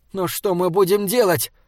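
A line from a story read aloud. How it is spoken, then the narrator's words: Nearly shouting. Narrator (Russian): Саймон почти кричал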